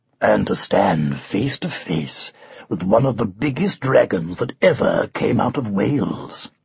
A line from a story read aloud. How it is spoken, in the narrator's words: murmured Arthur